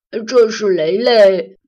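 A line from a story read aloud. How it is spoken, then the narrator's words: Smiling. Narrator (Chinese): 阿兰笑了笑 说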